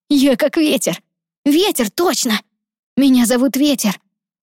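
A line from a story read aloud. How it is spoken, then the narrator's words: Exclaimed. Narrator (Russian): воскликнул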